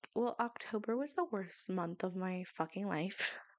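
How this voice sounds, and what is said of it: Dramatic delivery. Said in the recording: “I say that dramatically.”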